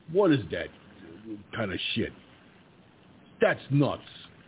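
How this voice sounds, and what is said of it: Exaggerated put-on New York accent. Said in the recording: “does not sound like a New York accent ... I immediately go into that humorous bit where I go ... you want me to talk like I'm from 223rd Street and the Toyota Avenue? Is that what you was expecting me to sound like?”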